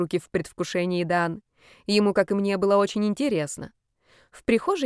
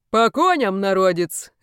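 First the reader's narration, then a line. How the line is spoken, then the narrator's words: Exclaimed. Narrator (Russian): воскликнул Олег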